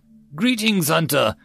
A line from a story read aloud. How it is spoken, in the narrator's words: Kai'd called out, only a little delayed